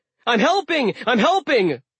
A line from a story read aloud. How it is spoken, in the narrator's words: yelling